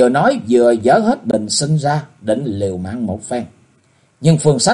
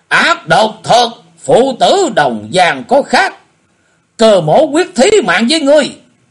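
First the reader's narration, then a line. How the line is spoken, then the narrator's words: Furious loud shout. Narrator (Vietnamese): Cơ Hùng thấy thế, hai mắt đổ lửa quát lớn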